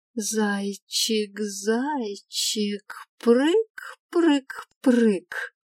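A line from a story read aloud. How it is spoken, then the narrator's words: Madman singing. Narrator (Russian): Пел сумасшедший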